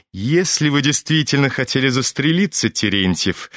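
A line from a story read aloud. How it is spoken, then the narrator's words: Laughing. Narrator (Russian): засмеялся Евгений Павлович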